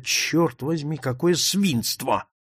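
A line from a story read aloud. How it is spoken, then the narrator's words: Involuntary mutter to oneself. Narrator (Russian): Невольно я пробормотал про себя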